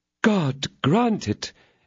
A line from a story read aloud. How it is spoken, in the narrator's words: exclaimed Aramis, overjoyed